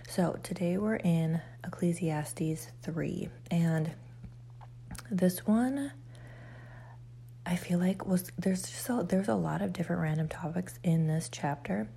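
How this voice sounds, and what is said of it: Quiet, subdued morning voice. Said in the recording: “why does she sound so different? Why is she so quiet? ... I sound a little different.”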